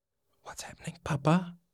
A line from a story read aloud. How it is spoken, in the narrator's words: Hinakura whispered